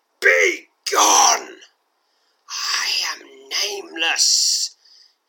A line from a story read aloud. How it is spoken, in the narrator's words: hisses the second voice again